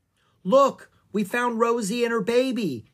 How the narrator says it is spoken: Annie shouted

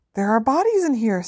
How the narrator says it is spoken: said Harry, and his voice sounded much higher than usual and most unlike his own

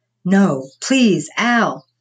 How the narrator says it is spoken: more of a scream, echoed down the long corridor

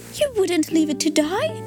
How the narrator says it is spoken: cried

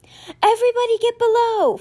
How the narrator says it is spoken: Florence shouted

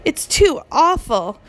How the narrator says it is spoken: Sophie cried

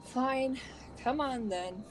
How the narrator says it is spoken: Fred sighed

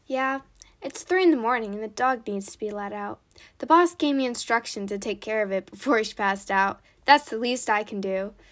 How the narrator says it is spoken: forcibly laughed James

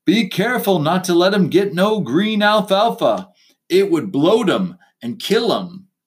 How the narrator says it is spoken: Corcoran bellowed after me

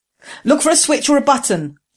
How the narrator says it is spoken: Jessam shouted to Ging

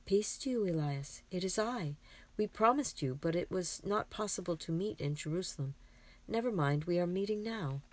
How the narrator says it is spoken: says Mary, kindly

